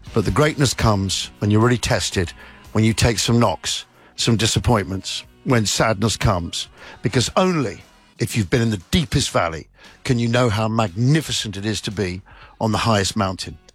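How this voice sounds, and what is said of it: Speaks with a noticeable accent. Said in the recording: “I just love his accent”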